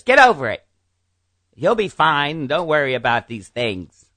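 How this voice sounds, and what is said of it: Poor imitation of another person's voice. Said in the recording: “That's not her voice. ... That's a terrible impression of her.”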